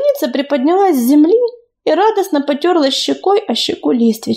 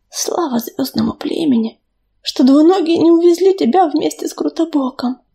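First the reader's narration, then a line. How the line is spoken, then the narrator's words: Whisper. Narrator (Russian): прошептала она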